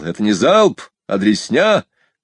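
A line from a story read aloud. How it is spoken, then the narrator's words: Yelling. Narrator (Russian): Комбриг заорал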